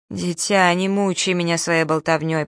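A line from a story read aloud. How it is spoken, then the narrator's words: Muffled moan. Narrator (Russian): простонала баронесса, закрывая лицо платком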